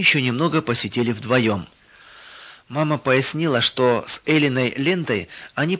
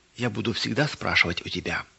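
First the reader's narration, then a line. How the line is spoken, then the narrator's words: Child whispering. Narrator (Russian): девочка шепотом сказала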